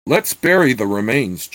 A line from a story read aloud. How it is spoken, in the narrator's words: Church said harshly